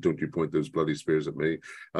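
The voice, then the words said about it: Put-on received pronunciation accent. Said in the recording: “he always says it in a received pronunciation accent”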